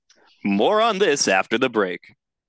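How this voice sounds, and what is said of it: Announcer-style radio voice. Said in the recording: “That radio voice is slowly coming back to me.”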